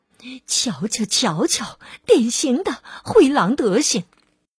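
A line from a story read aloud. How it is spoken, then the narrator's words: Animals muttering. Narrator (Chinese): 其他的动物也都在嘀咕着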